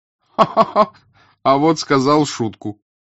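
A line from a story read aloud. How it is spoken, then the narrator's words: Hearty cheerful laughter. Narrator (Russian): Француз весело сангвинически расхохотался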